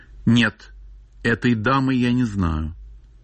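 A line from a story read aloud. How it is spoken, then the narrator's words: Simple plain answer. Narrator (Russian): Ревекка ответила просто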